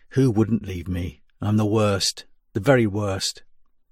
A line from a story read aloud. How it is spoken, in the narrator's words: in a whisper redolent with sleeplessness and pain, said